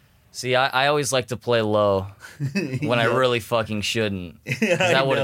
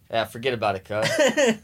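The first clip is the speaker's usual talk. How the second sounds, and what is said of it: Imitates another person's voice. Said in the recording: “That's a good Paul Walker impression.”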